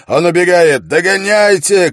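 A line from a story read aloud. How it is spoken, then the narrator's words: Shouting. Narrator (Russian): крикнул Холт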